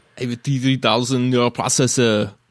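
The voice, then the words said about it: Arnold Schwarzenegger impression. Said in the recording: “I think that's five different Arnold movies now.”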